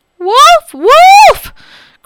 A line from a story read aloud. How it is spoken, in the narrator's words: cried the frightened boy